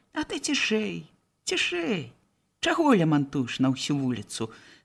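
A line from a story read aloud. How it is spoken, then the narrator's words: Calm authoritative reply. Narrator (Belarusian): спакойным тонам парадчыка адказаў Гардзей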